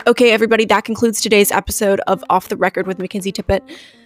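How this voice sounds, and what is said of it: Unusually low-pitched voice. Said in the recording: “in a lower register voice today. If you couldn't tell, my voice sounds very different”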